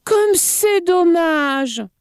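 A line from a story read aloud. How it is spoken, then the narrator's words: Exclaiming. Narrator (French): s'écria-t-il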